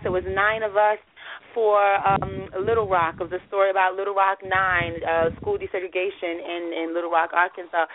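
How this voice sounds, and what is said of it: Hoarse, strained voice. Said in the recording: “my voice is really out right now, it's not all the way. That's because I was doing a lot of screaming”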